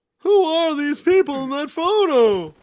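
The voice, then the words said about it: Imitates another person's voice. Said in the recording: “Give us a little Seinfeld impersonation”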